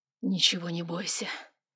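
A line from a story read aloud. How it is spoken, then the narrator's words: Barely audible. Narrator (Russian): говорил еле слышно Вайлар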